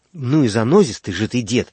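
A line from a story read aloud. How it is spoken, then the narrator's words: Angry. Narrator (Russian): сердито сказал Лаврентий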